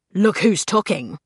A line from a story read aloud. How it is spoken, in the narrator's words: snarled Blackwell